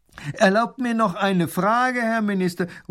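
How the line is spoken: Man calling from crowd. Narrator (German): ruft ein Mann aus der Menge

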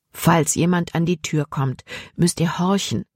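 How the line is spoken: Plain. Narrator (German): sagte Dr

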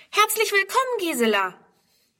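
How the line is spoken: Calling out. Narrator (German): ruft

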